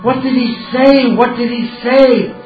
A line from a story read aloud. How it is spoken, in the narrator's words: Suddenly, Vijay, he began to scream